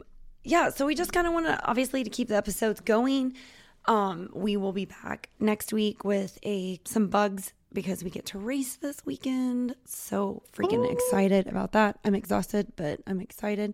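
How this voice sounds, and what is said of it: Hoarse, fading voice. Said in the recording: “my voice is going out”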